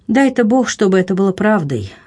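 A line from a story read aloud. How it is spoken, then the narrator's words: Sighing. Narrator (Russian): вздохнув, продолжала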